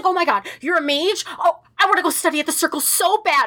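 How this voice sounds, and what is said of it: Excited video game character voice. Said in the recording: “pretty good Dagna impression”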